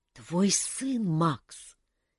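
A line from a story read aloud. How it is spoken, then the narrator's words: Quiet prompting. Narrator (Russian): тихо подсказал Дэн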